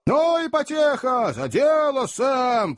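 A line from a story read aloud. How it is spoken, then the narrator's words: Encouraging rowdy group shouts. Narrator (Russian): поощрительно закричали несколько наемных кучеров и, бурно веселясь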